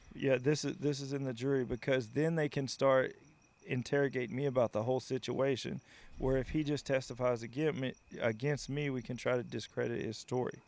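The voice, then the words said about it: Southern American accent. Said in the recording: “your sweet Southern accent”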